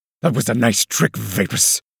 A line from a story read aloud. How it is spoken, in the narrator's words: spat